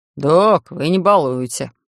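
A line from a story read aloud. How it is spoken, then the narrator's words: Reproachful grumbling. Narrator (Russian): проворчал Сэм сукаризной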